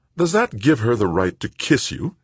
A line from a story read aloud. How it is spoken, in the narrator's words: Joanna asked sharply